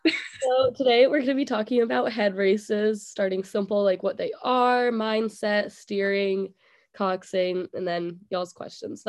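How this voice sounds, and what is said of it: Rough, slightly hoarse voice. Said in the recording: “my voice sounds a little weird. I had COVID the past few days. So my voice is a little rough still”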